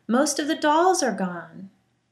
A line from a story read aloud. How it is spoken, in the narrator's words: A little girl yelled